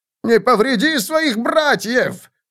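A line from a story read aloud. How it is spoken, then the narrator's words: Terrified shouting. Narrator (Russian): в ужасе кричал Лихтман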